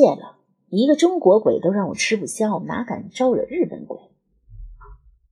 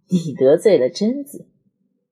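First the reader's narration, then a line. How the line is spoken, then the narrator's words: Laughing. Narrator (Chinese): 张之野笑起来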